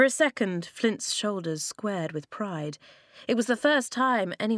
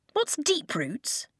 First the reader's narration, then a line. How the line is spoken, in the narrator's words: Flint scoffed